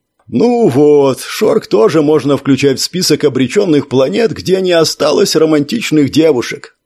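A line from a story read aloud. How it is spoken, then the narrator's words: Sad, ambiguous tone. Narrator (Russian): сказал настолько печально, что сразу было и не разобрать, шутит он или действительно так сильно расстроился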